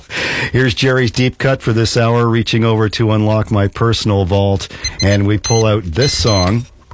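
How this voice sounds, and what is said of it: Congested, slightly off voice. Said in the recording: “My voice is a little bit off today. It's some sort of allergy or viral infection. ... Treating it with nasal spray.”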